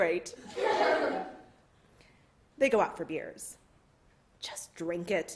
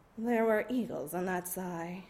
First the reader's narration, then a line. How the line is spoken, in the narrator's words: Gina murmurs, reverential